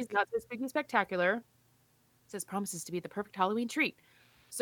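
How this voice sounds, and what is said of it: Usual voice. Nothing is said of it.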